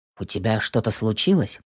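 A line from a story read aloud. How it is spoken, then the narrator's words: Gentle quiet question. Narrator (Russian): Спрашиваю тихо, чтобы не напугать девушку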